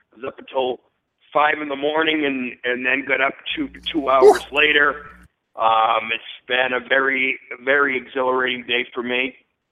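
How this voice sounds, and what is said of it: Tired-sounding voice. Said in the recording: “as you can probably tell in my voice, I'm tired.”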